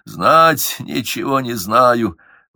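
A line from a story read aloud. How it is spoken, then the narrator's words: Old man wheezing in agony. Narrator (Russian): Подвешенный на дыбу, с вывороченными суставами, старый князь хрипел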